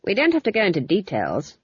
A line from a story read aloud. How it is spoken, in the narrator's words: Granny said icily